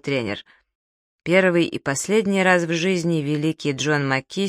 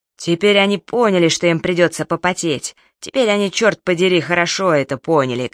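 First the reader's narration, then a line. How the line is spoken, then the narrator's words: Coach shouting. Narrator (Russian): кричал тренер Джефферсон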